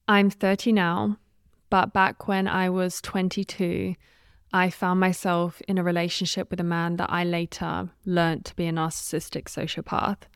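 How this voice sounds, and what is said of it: Australian-British accent. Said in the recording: “You might be able to tell from the accent, I'm not sure, but I am Australian and British”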